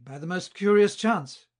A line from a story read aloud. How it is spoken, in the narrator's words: cried he